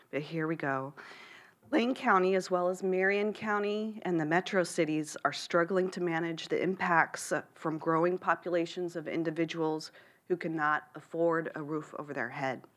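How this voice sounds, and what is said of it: Rough, congested voice. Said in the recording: “I have a small cold I'm trying to stave off... excuse my voice.”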